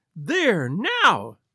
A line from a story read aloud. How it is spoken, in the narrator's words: she cried